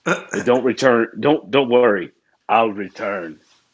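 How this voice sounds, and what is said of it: Imitates another person's voice. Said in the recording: “my terrible Arnold Schwarzenegger impression.”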